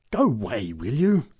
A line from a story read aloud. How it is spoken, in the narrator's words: growled the big woman